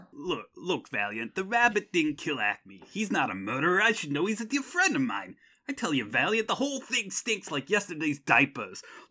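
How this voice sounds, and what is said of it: Impression of a cartoon character. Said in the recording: “my perfect, flawless impersonation ... Baby Herman”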